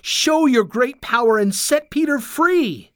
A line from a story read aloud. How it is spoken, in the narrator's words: cried